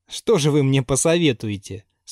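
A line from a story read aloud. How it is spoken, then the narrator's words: Laughing question. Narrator (Russian): спросила Анна Сергеевна, продолжая смеяться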